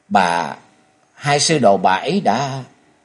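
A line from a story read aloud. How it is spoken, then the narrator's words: Trembling shaken voice. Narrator (Vietnamese): Trần Lâm chấn động toàn thân run rẩy nói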